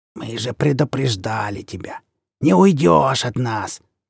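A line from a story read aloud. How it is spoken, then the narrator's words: Creaky voice near ear. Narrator (Russian): проскрипела над ухом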